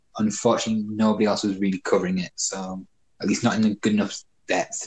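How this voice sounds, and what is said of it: British accent. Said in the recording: “You're originally from the UK ... As the accent gives away ... The accent's awesome.”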